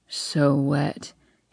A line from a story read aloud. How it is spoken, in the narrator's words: he groans